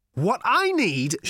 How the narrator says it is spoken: shouted Ford

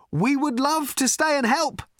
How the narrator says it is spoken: shouted Ford

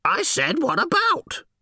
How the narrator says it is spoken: almost screeched

